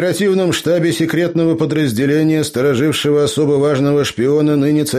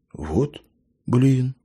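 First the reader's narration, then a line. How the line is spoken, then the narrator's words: Exhaled in chorus. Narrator (Russian): хором выдохнули молодые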